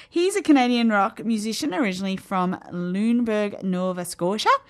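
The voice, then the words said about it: Put-on Nova Scotian accent. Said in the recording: “I don't know why I said it in that accent. I apologize to everybody from Nova Scotia.”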